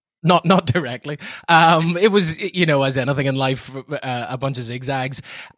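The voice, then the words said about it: Slightly Americanized Northern Irish accent. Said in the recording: “my slightly weird Northern Irish accent that's somewhat been Americanized”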